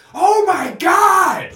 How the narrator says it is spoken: Towns, when he gets finished dunking, whenever it's like a highlight dunk, you hear him scream

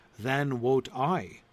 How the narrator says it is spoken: said the ermit

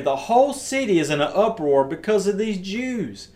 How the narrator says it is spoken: shouted

